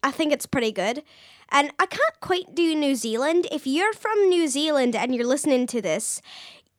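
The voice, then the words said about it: Attempted Australian accent, sounds Scottish. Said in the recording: “this is my Australian accent... That was your Scottish accent.”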